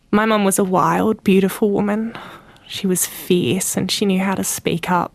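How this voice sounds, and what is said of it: Choked up, emotional voice. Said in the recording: “I'm a bit choked up.”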